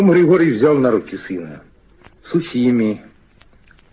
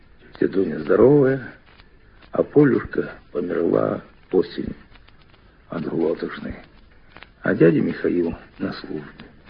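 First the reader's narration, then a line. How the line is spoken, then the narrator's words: Quiet answer. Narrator (Russian): Мишатка тихо ответил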